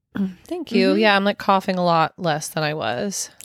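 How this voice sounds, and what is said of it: Slightly raspy voice. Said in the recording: “I'm still a little raspy, still coughing a little bit ... you sound a lot better”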